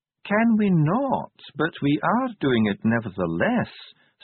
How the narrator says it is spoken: said Ardent calmly

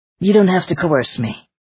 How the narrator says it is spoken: Brian said testily

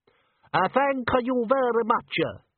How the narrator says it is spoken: said the bather, his voice dripping with accent

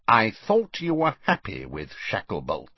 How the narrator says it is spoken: said Scrymgeour coldly

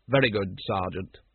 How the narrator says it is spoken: said Vimes coldly

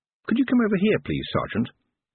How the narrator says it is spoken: Brian sighed

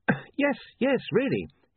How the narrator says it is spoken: gasped William

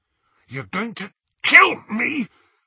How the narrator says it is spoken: choked, attempting to prise off the metal fingers

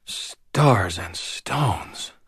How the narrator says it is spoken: whispered

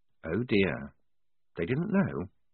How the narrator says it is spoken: said, very quietly

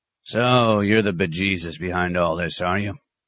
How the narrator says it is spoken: he grunted at the abbot

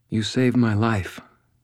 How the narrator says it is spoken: she said, and I heard her voice shaking

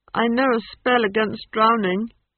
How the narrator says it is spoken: he added miserably

